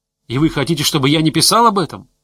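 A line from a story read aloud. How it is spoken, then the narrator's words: Shouting. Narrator (Russian): кричал Иван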